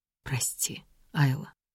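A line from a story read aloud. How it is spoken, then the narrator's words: Quiet apology. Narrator (Russian): тихо извиняется принц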